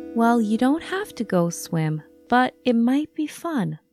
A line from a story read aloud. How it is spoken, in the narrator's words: Mom said